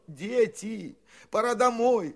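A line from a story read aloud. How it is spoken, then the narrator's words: Pleading adults. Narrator (Russian): взмолились взрослые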